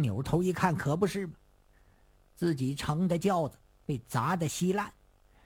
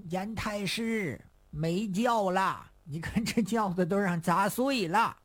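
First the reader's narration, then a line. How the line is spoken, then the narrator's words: Group shouting. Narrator (Chinese): 门口这帮人就跟着严嵩喊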